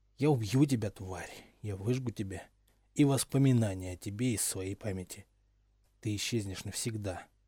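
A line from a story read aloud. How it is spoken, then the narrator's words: Muttered threat. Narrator (Russian): Пробормотав эту малопонятную угрозу, Гарри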